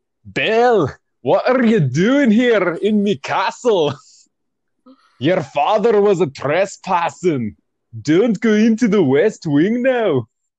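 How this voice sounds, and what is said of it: Put-on accent drifting toward Indian. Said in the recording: “That slipped into like Indian a little bit towards the end there ... I can't sustain an accent.”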